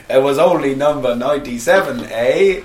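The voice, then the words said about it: Put-on Canadian accent. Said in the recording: “your Canadian accent's the best”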